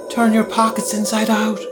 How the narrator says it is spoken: cried a young girl's voice

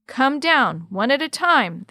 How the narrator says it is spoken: the commander shouted back

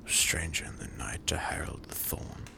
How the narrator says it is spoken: Blackwood murmured

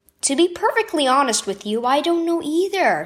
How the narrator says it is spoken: said Mom

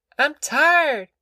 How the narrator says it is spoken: she whined

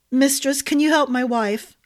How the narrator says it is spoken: a Stonemount gate guard begged

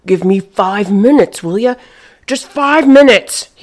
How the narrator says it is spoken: snapped

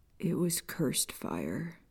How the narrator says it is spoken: Peter whispered

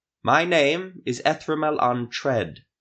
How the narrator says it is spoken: shouted in elder speech to the guard

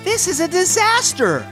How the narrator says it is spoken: Lila cried

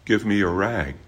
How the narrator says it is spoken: he said gently

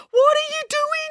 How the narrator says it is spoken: yelled Finn

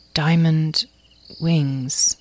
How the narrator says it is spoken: Azrael said slowly

